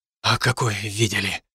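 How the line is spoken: Breathless exhale. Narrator (Russian): выдохнул я

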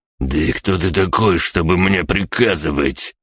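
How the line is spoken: Furious spitting hiss. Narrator (Russian): прошипел Чейни, брызжа слюной

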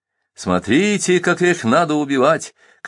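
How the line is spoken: Shouting in Chechen. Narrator (Russian): кричал по-чеченски главный палач

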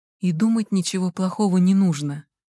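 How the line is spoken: Warm, gentle. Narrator (Russian): тепло сказал он

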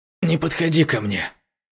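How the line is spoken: Growl. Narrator (Russian): прорычал он

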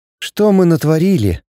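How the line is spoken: Sad. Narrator (Russian): грустно сказала Эри

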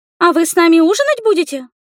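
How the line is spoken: Thin squeaky voice. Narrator (Russian): пискнул тоненький голосок

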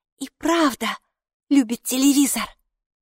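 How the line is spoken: Whisper. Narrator (Russian): прошептала Хилла

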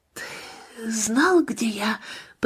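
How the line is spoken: Whisper. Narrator (Russian): прошептала она

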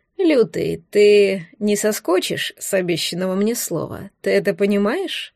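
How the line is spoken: Sarcastic, over phone. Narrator (Russian): язвительно сказал в трубку Чех

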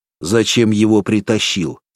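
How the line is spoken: Angry question. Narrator (Russian): сердито спросил лжеунтер

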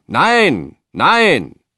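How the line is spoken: Crowd roaring. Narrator (German): brüllten die Menschen

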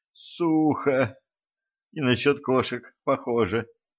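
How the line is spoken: Moaning. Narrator (Russian): простонала Катран

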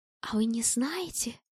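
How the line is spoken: Conspiratorial whisper. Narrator (Russian): заговорщическим шепотом спрашивала

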